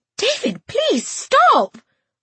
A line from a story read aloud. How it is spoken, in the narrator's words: I cried